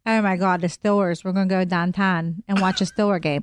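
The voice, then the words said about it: Put-on Pittsburgh accent. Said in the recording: “Pittsburgh ... What is that accent?”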